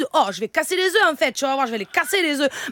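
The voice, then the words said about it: Put-on southern French accent. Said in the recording (French): “Allez, maintenant l'accent du sud.”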